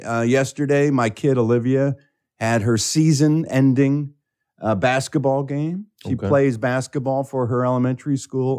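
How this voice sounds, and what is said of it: Slightly raspy voice. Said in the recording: “my voice is a little raspy, ... I am known as the loud dad on the sidelines, screaming instructions to the team.”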